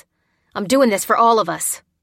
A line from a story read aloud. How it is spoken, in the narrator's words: insisted through gritted teeth